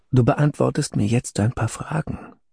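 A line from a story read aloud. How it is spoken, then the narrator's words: Quiet speech. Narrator (German): sage leise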